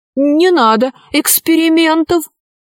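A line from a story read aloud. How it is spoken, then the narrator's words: Pleading. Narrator (Russian): взмолился ковер-самолет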